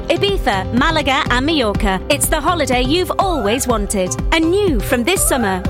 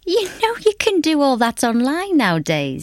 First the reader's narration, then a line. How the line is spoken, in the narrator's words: he chuckled